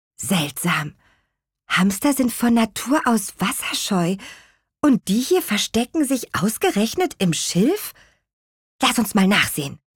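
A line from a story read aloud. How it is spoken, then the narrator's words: Whispered. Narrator (German): flüsterte Lea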